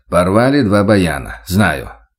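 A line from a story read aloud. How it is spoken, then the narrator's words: Rough joking. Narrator (Russian): грубо пошутил Владимир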